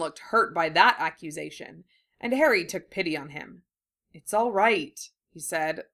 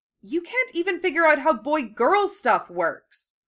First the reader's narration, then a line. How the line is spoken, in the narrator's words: Hermione snapped